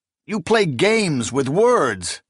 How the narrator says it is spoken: he exclaimed

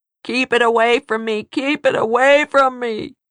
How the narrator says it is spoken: howled

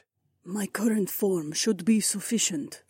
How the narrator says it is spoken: Nora whispered

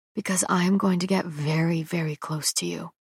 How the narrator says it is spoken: says quietly

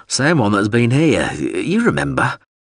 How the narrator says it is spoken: Wubslin said, wearily belching

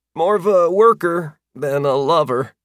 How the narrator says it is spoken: squeaked out

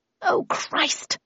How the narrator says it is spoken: I muttered

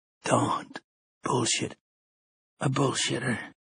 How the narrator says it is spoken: he whispered

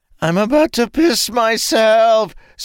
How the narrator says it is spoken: Sane screamed

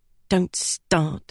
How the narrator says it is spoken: grumbled

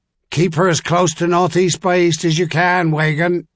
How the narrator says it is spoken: Sir Duncan Yearley shouted in his senior helmsman's ear

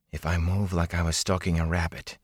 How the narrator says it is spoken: he whispered to himself

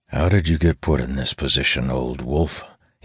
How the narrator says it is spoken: says to himself, heaving a sigh

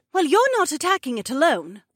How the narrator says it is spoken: Becca argued

